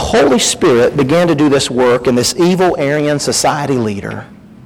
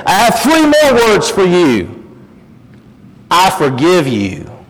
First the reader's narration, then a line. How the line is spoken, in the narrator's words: the black man yelled again